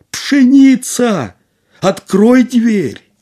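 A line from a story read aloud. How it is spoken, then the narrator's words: Frightened shout, repeated. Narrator (Russian): немного испугался, он подумал и крикнул опять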